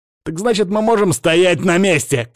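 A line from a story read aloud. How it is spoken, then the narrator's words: Shout. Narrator (Russian): крикнул я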